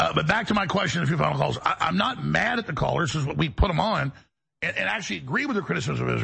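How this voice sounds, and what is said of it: Usual voice. Nothing is said of it.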